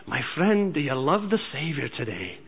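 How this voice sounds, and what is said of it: Imitated Scottish accent. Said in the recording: “He has this beautiful Scottish accent ... That's how he'd say it.”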